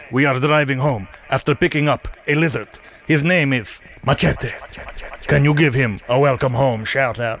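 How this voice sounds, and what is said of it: Put-on comic character accent. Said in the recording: “I'm going to read in a Machete type of accent, even though Ney doesn't talk like that”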